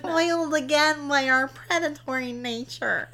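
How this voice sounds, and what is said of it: Geeky put-on voice. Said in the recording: “You didn't do that in a geeky enough accent. You needed to push up your glasses just right there.”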